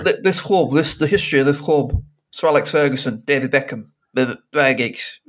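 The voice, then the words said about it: Imitates another person's voice. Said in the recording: “That is a very good impression.”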